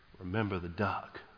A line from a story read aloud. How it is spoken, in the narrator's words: whispered in her brother's ear